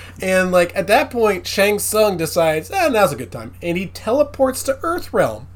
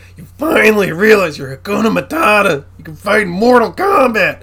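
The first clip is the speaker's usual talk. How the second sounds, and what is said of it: Imitates another person's voice. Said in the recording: “gonna do the Christopher Lambert voice.”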